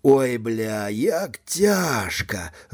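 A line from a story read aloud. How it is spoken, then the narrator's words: Groaning. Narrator (Belarusian): застагнаў Данік Крываблоцкі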